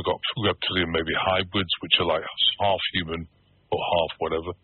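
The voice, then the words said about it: British accent. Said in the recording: “I'm still got a British accent”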